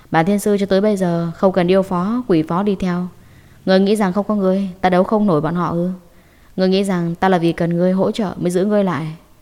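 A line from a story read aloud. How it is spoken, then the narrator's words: Cold. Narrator (Vietnamese): Diệp Thiếu Dương lạnh lùng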